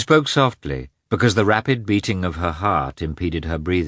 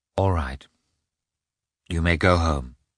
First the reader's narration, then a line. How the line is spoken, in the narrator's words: she said softly to Mikhail